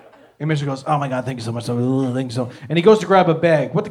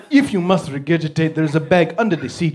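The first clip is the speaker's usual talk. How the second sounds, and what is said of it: Funny put-on accent. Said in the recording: “if you say a big word in a funny accent”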